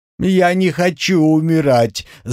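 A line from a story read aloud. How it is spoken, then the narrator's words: Wailing, sobbing. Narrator (Russian): завыл Артам и стал всхлипывать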